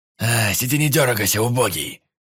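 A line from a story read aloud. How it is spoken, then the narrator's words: Rough, hoarse growl. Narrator (Russian): Рыкнул на меня тот, что сидел слева, грубым и сиплым голосом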